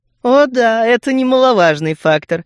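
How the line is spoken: Laughing. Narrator (Russian): рассмеялась Стрелкова

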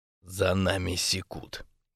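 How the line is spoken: Extremely quiet. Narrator (Russian): невозможно тихо сказал Тони

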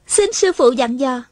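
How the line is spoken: Happy, smiling. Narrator (Vietnamese): Hà Thiết Thụ mừng rỡ, mỉm cười nói

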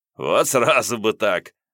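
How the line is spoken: Chuckled. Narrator (Russian): хохотнул Вадим

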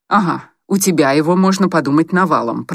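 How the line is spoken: Grumbling. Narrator (Russian): проворчал Коротков

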